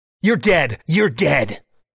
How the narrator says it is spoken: snaps the hoodie guy

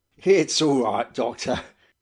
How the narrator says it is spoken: said Captain Gannington, laughing gently

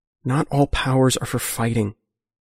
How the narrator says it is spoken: Geometer says quietly

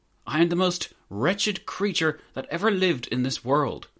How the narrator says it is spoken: cried

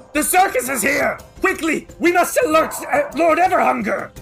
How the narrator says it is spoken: he screams and says

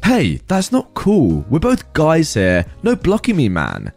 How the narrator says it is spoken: Jack exclaimed

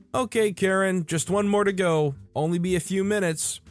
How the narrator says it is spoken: yell back

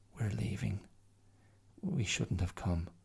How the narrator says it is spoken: Her face crumpled, and she turned to Mia and quietly said

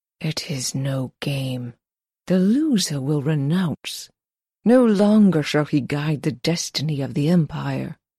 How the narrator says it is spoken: Crane whispered

